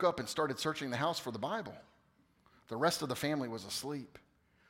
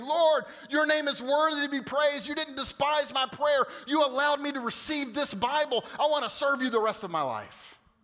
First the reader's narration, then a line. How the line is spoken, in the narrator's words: I cried out to the Lord in thanksgiving